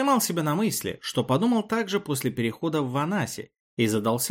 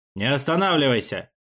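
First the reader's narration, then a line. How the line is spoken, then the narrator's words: Barking shout. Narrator (Russian): рявкнул один из халдивиров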